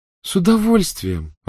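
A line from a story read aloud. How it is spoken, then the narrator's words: Joyful reply. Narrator (Russian): радостно откликнулась Полумна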